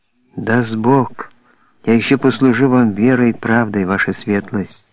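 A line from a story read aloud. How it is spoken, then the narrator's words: Quiet. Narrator (Russian): произнес тихо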